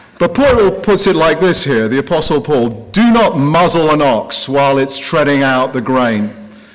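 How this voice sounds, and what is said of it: English accent. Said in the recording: “my background ... an English accent”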